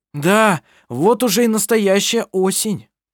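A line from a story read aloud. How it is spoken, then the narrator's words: Shouted. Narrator (Russian): прокричал он ей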